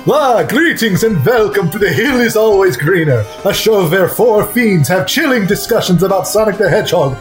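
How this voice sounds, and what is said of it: Exaggerated Dracula vampire voice. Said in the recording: “the terrible Dracula voice”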